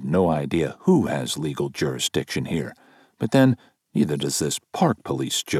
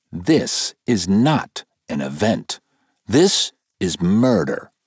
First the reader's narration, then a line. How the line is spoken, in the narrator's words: say firmly